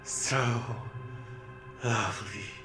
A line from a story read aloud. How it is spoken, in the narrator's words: he murmured once more